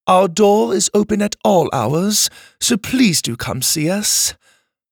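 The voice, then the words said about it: Proper British accent. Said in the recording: “Ma announced in a perfectly proper British accent.”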